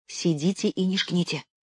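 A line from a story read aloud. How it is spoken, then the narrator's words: Whisper. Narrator (Russian): шепнула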